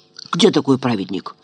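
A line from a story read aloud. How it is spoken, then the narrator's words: Quiet boy's voice. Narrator (Russian): Отрок тихонько проговорил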